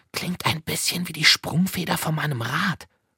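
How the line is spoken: Whispered. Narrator (German): flüsterte Liesel

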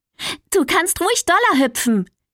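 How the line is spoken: Calling out. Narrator (German): rief sie

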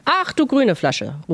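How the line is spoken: Exclaiming. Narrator (German): ruft er aus

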